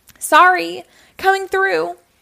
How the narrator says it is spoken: he yelled

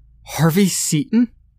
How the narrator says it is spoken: shrieked at an ear-piercing pitch

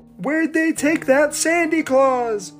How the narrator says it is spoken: shouted

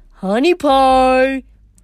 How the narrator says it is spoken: the monster bellowed

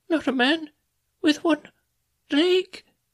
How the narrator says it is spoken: he gasped

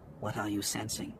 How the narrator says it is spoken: He asked under his breath

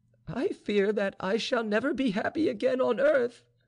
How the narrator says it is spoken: cried Vaninka, giving way under the pressure of her grief

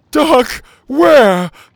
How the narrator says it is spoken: Petey cried

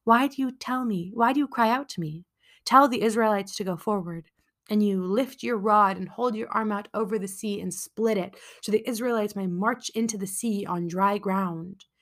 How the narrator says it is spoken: Hashem, who was simply having none of this nonsense, and replied

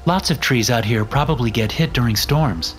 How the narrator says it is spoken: Becky said

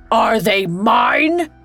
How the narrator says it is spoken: he bellowed

